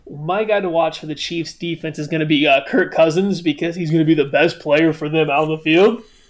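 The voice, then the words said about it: Imitates another person's voice. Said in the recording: “that was my best Kent impression.”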